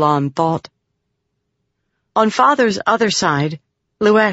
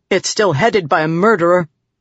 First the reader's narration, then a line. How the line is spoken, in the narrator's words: Balat snapped